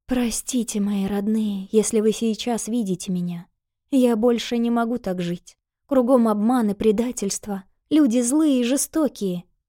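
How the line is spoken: Whispered. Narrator (Russian): прошептала

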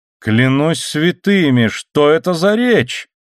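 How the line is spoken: Seemingly admiring exclamation. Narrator (Russian): воскликнул как бы в восхищении Дон Диего

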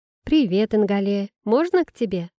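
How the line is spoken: Cheerful. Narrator (Russian): бодро произнесла я

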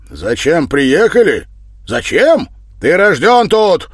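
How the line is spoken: Angry outburst. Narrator (Russian): выкрикнул вскипев Федор

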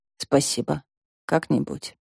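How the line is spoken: Muttered, female. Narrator (Russian): Язвительный ответ растаял у Вики на языке, и она пробормотала

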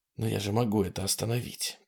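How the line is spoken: Whispered. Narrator (Russian): прошептал Ситерстон

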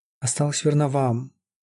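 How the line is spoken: Sad repetition. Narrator (Russian): повторяла она грустно

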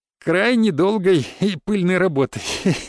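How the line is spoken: Laughing. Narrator (Russian): засмеялся

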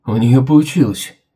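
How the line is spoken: Nervous exhale. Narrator (Russian): Нервно выдохнул Кохтли

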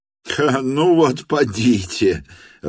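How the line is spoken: Laughing. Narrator (Russian): рассмеялся Петр Степанович

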